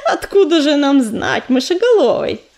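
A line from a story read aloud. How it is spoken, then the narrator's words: Cheerful laughing. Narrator (Russian): засмеялась Пепелица и весело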